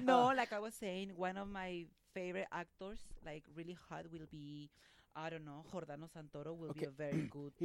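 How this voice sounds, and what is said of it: Fast Latin American Spanish accent. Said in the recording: “They want me to speak slower and get my Sofia Vergara accent out.”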